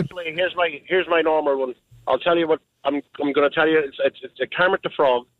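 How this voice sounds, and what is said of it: Irish accent. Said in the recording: “I'm really from Ireland ... I was thinking you were from the east side of Ireland”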